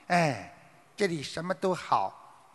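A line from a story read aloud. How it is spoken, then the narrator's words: Long sigh. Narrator (Chinese): 画眉鸟长叹一声说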